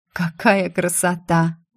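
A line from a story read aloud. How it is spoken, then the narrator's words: Breathless exhale. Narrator (Russian): выдохнула я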